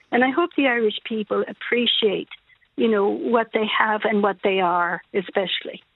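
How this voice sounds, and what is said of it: French accent with American English. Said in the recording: “your lovely accent ... I was originally French, but I've lived in a lot of places in the world, and I learned English in the States when I was very young. So that never goes.”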